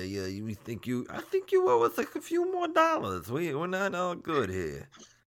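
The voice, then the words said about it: Mobster-style character voice. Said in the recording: “that voice you gave to the government ... that's like douchebag Marlon Brando”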